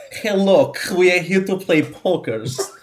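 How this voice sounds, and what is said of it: Exaggerated bad Russian accent. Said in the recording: “the Russian guy with the worst accent ever”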